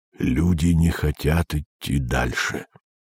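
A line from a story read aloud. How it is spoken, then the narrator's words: Low voice. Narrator (Russian): произнес он вполголоса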